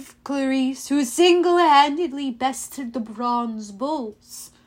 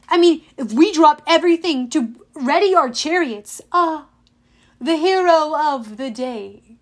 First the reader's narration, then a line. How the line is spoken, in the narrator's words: Tantalus exclaimed